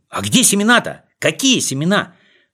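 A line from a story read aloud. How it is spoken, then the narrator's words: Overlapping shouting voices. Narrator (Russian): Наперебой кричали они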